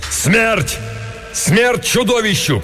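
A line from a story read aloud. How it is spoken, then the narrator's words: Shouting. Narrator (Russian): крикнул Беарвальд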